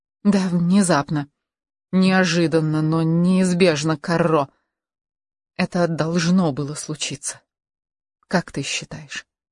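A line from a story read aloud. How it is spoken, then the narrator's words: Agitated whisper. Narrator (Russian): он тоже прошептал, волнуясь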